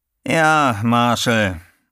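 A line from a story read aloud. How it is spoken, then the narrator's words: Tired voice. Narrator (German): sagte Macpherson mit müder Stimme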